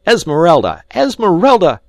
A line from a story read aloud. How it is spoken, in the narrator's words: he shrieked